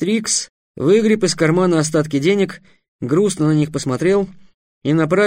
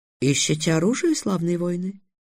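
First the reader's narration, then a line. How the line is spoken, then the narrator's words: Surprisingly soft voice. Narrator (Russian): неожиданно мягким голосом спросил торговец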